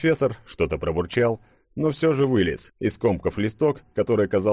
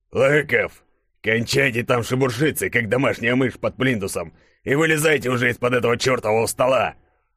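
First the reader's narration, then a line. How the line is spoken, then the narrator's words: Boss's growl. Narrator (Russian): прорычал шеф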